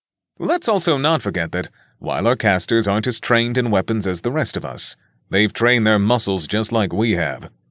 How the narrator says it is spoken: Alan said cheerfully

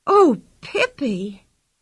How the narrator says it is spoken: cried Anika excitedly

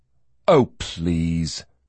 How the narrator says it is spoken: he said dryly

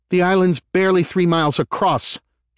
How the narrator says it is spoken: she snapped

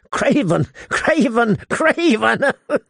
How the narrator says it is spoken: He giggled hysterically

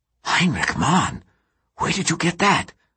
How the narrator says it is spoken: whispers Rudi

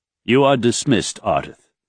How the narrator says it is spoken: Raythan said firmly

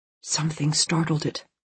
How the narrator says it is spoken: August whispered

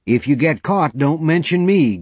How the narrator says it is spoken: Gay called out after him

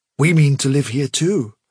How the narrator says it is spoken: said Hazel firmly

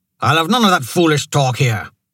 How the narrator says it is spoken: Harta snapped

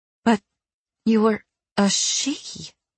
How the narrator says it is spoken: I said faintly

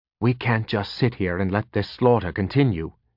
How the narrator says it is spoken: he said quietly

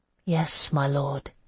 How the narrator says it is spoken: I murmured

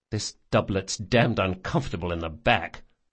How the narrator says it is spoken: Locke muttered

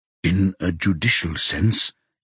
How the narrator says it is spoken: he says in a low voice

